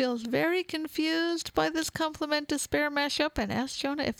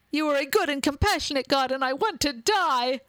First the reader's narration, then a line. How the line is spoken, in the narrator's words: Jonah shouts